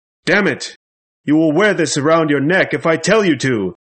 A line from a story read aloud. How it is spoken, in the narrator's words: Van Helsing suddenly shouted angrily